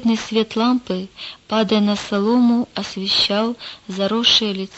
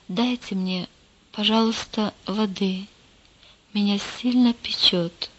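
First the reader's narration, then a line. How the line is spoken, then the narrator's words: Quiet whisper. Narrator (Russian): тихо прошептал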